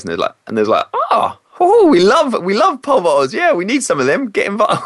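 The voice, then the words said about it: Attempted put-on Irish accent. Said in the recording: “Apologies for the attempted Irish accent then.”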